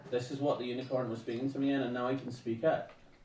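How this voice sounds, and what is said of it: Weak put-on Northern Irish accent. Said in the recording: “I probably shouldn't have chosen a Northern Irish accent for this, because I can't really do one.”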